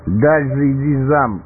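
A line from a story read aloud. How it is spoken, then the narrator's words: Shouting. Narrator (Russian): прокричал он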